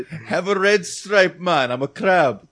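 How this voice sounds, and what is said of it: Jamaican-accented crab voice. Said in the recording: “The crab was Jamaican. It wasn't Caribbean. I knew it had an accent somewhere.”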